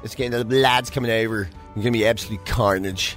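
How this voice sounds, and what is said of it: Exaggerated posh Dublin accent. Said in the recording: “the most Ross O'Carroll Kelly accent of all time... the most manufactured accent I've ever heard... very, very specific place in Ireland where it comes from, and Dublin where it comes from... I'm just mocking the poor fella”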